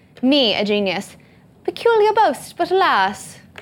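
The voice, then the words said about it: Bad put-on British accent. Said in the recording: “I think that geniuses are British ... trying out that accent ... That was a terrible accent.”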